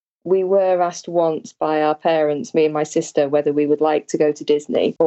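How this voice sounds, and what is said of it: British accent. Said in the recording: “Maybe people pick this up from your accent, but you live in the UK”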